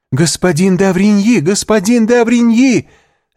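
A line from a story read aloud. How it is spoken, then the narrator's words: Choked cry. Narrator (Russian): закричала Валентина сдавленным голосом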